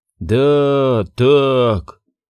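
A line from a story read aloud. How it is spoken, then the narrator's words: Sad confirmation. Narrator (Russian): печально подтвердил Гуэрра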